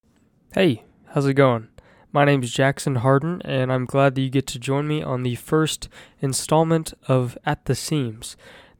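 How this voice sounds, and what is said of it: Stuffy, congested low-energy voice. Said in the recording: “I sound a little stuffy ... I have COVID right now, and I'm just kind of stopped up and kind of at a loss for energy”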